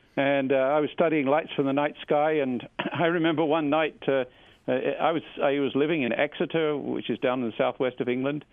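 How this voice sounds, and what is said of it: English accent. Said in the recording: “I was back in England. You can probably hear that in my accent.”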